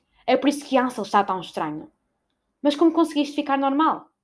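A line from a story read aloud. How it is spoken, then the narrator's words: Near shout. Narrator (Portuguese): quase gritou e acrescentou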